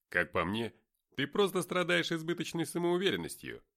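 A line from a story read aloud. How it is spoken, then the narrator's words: Laughing. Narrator (Russian): хохотнул Дерек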